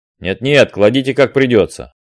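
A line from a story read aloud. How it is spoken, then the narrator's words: Displeased sailors' voices. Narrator (Russian): отвечали недовольным голосом матросы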